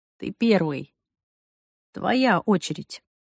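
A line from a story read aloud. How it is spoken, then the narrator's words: Calm. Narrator (Russian): он сказал спокойно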